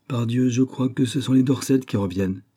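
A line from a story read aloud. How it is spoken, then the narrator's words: Exclaimed. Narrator (French): s'écria Stepney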